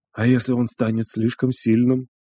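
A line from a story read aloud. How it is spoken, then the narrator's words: Old man's near whisper. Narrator (Russian): Тихо, почти шепотом бросил седой Хварё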